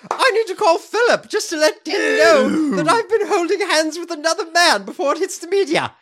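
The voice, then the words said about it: Theresa May impression. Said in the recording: “My Theresa May imitation.”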